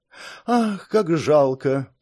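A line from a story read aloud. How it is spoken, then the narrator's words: Feigned sigh. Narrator (Russian): притворно вздохнула Марис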